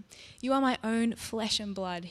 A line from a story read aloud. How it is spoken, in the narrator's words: said